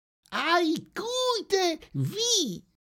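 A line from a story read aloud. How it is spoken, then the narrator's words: Chirping. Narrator (German): Fröhlich … piepste er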